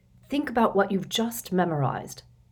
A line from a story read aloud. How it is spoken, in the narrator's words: said Lupin quietly